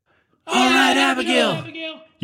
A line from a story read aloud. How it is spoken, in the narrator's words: yelled her friends in the cage, ready to get out